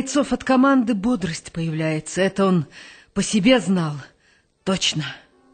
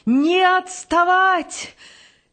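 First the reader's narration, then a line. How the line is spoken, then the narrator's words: Deliberately hearty shout. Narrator (Russian): Это он нарочно кричал, чтобы бодрость появилась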